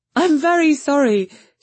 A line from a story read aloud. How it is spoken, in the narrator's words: she cried